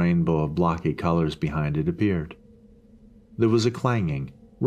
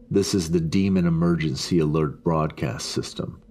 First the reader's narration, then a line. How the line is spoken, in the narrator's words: the voice said grimly